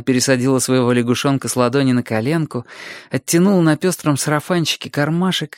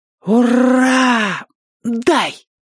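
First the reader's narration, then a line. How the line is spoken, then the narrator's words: Joyful breathless exhale. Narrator (Russian): радостно выдохнул драчун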